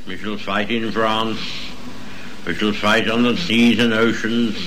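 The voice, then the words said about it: Strong British accent. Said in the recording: “He has a very strong British accent”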